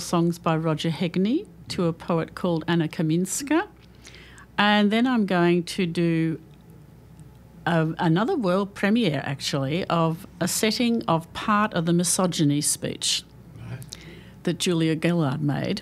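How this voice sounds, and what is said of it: Australian accent. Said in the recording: “I have an Australian accent while I'm speaking”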